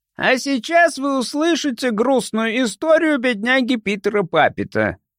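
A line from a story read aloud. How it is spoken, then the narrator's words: Thin shrill voice. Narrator (Russian): раздался его тонкий, визгливый голос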